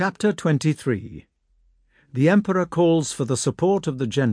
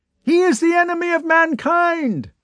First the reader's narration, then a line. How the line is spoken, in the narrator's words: cried another